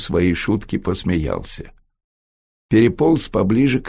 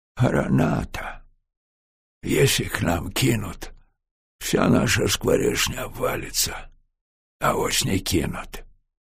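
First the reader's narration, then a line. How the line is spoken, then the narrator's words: Whispered. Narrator (Russian): Военком сказал это шепотом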